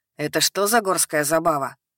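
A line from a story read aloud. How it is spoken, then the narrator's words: Snorting. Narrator (Russian): хмыкнул Картон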